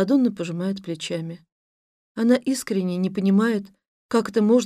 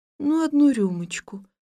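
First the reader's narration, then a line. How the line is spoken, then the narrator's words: Timid insistence. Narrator (Russian): робко настаивает она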